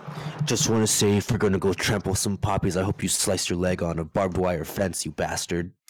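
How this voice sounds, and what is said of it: Menacing madman character voice. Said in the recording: “Good impersonation of a madman ... It sounded like you're like right in front of some guy's punk, you know, holding his collar, picking him up.”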